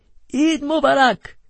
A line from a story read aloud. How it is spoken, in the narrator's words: he cried